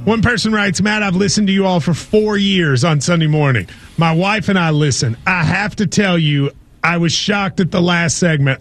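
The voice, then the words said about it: Southern drawl. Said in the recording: “You hear a Southern accent ... you do sound like some of my uncles ... you have some of that ... That draw.”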